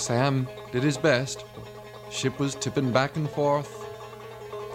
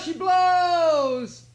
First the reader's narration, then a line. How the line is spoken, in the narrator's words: he cried